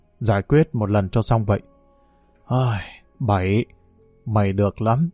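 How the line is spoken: Soft sighing speech. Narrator (Vietnamese): Hường thở dài, miệng khẽ nói

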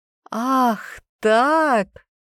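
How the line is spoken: Laughing. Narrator (Russian): рассмеявшись

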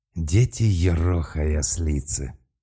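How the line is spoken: Shocked exhale. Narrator (Russian): потрясенно выдохнул Малк

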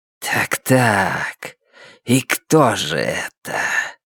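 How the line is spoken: Low hissing creature voice. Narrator (Russian): Существо говорило по-альтански, низким свистящим голосом

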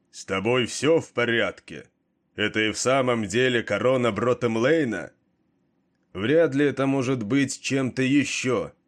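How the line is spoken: Echoing shouted reply. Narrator (Russian): крикнул в ответ Кейн, и эхо стократно усилило его голос

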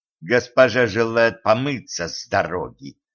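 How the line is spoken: Angry hiss. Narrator (Russian): прошипела Катран, опять начиная закипать

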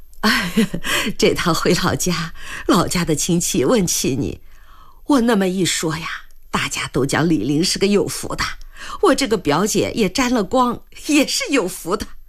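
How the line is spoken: Cheerful, laughing. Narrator (Chinese): 兰香整个人都愉悦起来，也笑着说

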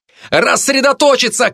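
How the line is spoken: Shout. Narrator (Russian): крикнул

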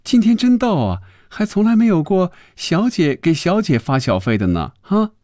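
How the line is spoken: Laughing. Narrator (Chinese): 她笑着说

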